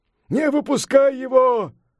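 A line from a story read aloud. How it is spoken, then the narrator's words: Shouting. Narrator (Russian): закричал Сунь-Укун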